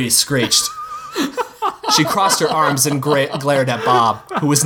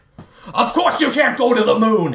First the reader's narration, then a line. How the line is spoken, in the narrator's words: yelled